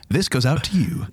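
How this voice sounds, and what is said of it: Radio DJ voice, Casey Kasem style. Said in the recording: “Like your radio DJ voice. ... Casey Kasem over here.”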